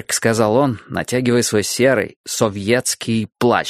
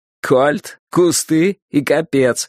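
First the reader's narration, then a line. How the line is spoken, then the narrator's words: Joyless chuckling speech. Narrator (Russian): сказал Борис с невеселым, каким-то славянским хохотком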